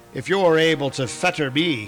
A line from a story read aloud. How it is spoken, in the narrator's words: he snarled